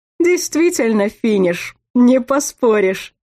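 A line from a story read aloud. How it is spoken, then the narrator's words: Agreeing, then laughing loudly. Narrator (Russian): Согласился Зор и расхохотался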